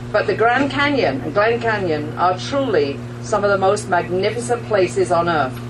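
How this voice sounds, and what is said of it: Speaks with a noticeable accent. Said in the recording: “You can tell there's an accent with this voice.”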